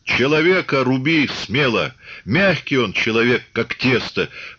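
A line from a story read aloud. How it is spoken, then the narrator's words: Amused instructing. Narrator (Russian): поучал Чубатый, смеясь глазами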